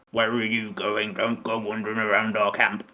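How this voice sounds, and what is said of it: Funny orc character voice. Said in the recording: “That's how orcs talk, right? ... They have a funny accent. It's difficult. I don't have your gift for imitating people.”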